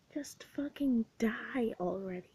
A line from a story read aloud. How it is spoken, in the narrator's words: she hisses through clouds of sweet-smelling smoke